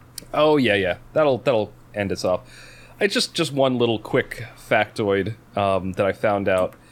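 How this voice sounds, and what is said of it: Talking very fast. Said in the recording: “I'm talking so fast, because I've had two pots of black tea”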